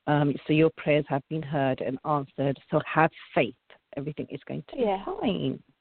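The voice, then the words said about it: Non-native English accent. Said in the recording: “excuse me, my English accent. I say the names different sometimes”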